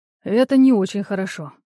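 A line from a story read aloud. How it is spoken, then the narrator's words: Sighing. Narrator (Russian): вздохнул Эол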